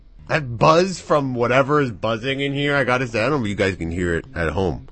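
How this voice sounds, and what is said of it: Hoarse, strained voice. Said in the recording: “I can hear it in my voice ... I think I screamed for 48 hours straight”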